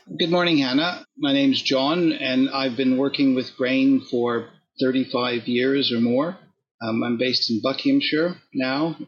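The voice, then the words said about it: Canadian accent. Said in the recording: “you can probably tell by my accent that I'm not born in Britain ... I'm Canadian by origin, and I grew up in Ontario”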